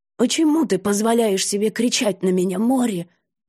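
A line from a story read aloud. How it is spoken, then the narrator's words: Hoarse, strained voice. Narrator (Russian): Добавить побольше осиплости в голос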